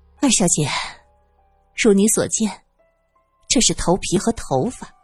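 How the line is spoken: Helpless sigh. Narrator (Chinese): 苏三无奈的叹了口气

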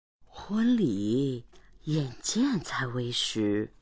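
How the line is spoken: Low-voiced woman. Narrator (Chinese): 船夫太太 低声说

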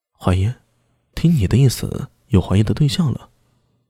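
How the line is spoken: Soft-spoken. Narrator (Chinese): 明空轻声说道

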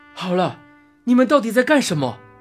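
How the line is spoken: Shouting. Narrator (Chinese): 同时喊道

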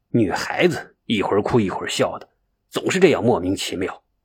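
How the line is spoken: Quiet muttering. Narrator (Chinese): 刘志略小声咕哝道

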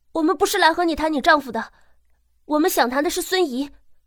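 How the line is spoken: Calling out to stop someone. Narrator (Chinese): 陈朵……叫住了马叔

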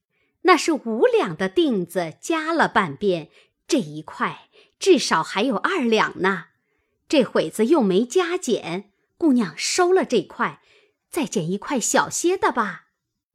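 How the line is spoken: Old woman, laughing. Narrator (Chinese): 那婆子 笑道

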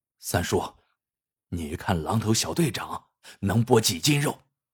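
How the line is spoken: Whispering. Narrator (Chinese): 二驴子 附耳过来，小声说

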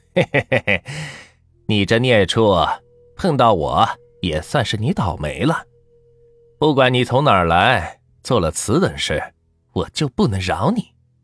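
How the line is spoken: Chuckling. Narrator (Chinese): 刘半仙笑了笑，说道

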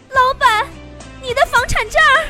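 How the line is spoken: Calling out. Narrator (Chinese): 我喊道

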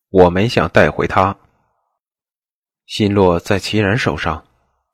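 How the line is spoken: Cold, indifferent voice. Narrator (Chinese): 布莎……声音淡漠的道

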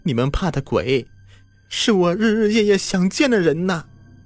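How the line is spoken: Crying. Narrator (Chinese): 小盛哭了

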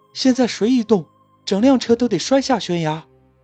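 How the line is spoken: Shout. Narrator (Chinese): 有人喊道

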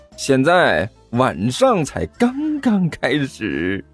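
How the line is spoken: Cheerful, smiling. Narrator (Chinese): 甘球笑眯眯的说道

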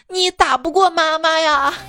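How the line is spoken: Crying child. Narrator (Chinese): 孩子接着哭道

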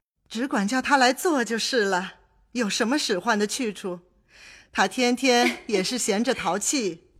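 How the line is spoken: Several laughing voices. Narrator (Chinese): 薛姨妈、宝钗等都笑道

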